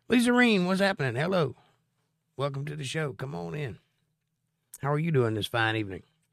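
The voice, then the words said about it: Slightly hoarse voice. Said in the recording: “I'm a little hoarse today... I'd rather be a little hoarse”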